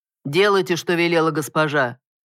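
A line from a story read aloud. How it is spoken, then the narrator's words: Sharp shout. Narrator (Russian): прикрикнул Брин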